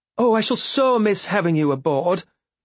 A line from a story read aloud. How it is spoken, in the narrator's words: Elise exclaimed